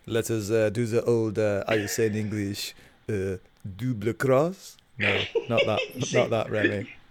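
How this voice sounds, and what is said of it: Good put-on French accent. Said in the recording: “he says it in a very French accent ... your French accent is far better than mine, man. It's very good.”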